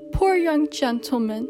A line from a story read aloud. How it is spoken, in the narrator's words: he said with a sob